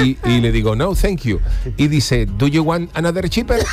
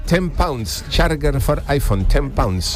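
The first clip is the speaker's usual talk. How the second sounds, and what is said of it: Imitated Indian accent in English. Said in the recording (Spanish): “Con ese acento, los indios.”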